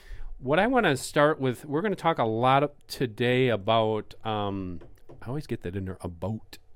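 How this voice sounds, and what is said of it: Canadian accent on 'about'. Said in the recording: “It's my Canadian accent. I always say that.”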